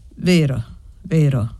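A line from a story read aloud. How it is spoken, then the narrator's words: Grave admission, woman. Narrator (Italian): ammise la donna con voce grave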